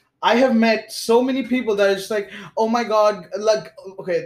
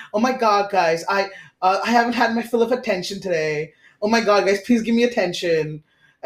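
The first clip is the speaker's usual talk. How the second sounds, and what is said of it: Exaggerated attention-seeking character voice. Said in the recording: “this is going to be a very bad impression”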